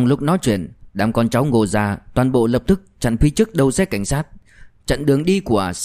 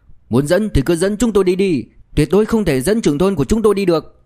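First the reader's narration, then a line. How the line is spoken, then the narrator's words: Loud group voices. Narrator (Vietnamese): đám đệ tử Ngô gia đồng loạt đứng dậy lớn tiếng nói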